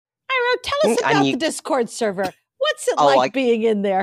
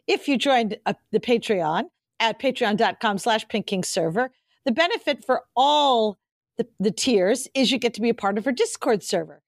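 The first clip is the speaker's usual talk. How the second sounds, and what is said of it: Mock announcer voice. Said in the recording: “I can go into my little announcer voice”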